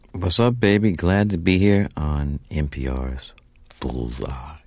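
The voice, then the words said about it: Rich radio voice. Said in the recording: “I'm giving you my radio voice. ... You sound good. You sound good. ... We'll get you some tea with honey and we'll get it even richer.”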